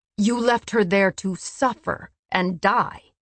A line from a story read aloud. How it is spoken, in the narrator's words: Cassian spat